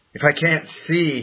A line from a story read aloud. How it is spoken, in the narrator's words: he said